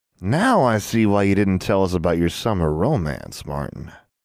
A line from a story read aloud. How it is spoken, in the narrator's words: one of the uniformed girls purred